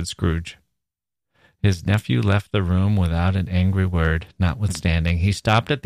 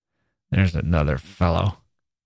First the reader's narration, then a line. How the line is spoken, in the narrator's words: muttered Scrooge